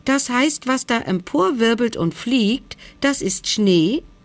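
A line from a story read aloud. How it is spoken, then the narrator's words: Joyful call. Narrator (German): rief er freudig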